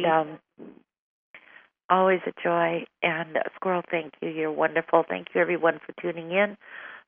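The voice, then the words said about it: Weak, strained voice. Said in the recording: “Your voice is getting weak ... my voice is really weak tonight.”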